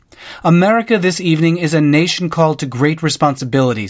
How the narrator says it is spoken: he called out

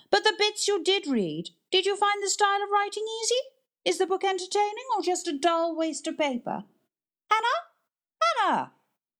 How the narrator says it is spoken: The librarian was forced to shout after her

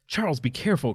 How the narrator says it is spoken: cried Emily

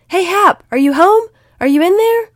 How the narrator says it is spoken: he yelled at the top of his lungs

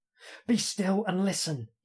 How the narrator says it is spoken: hisses

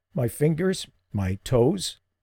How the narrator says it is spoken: croaked

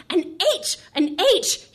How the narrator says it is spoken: shouted, happily

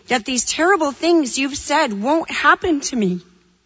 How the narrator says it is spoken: Simon exclaimed

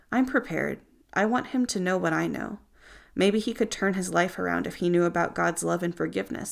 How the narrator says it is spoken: Stan said

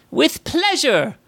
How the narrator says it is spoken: cried Zoe

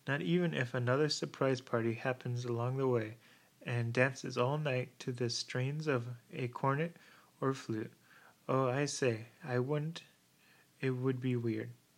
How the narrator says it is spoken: she added with a merry laugh

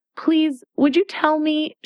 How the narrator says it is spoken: she began, looking timidly at the Red Queen

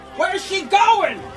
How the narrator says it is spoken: a piercing yell came forth from the crowd

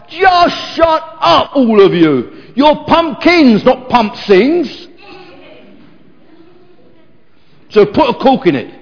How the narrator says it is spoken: he wanted to shout

